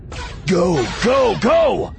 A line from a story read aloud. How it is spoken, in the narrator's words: Voss shouted